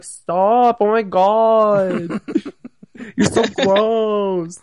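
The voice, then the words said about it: Imitates another person's voice. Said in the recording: “That's my Liz impression, by the way... It's a good impression.”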